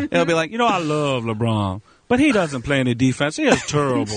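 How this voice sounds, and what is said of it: Imitates another person's voice. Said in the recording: “Charles Barkley's a cartoon now, isn't he? ... That is a funny impression.”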